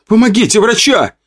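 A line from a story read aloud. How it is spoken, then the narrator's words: Woman shouting. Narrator (Russian): прокричала женщина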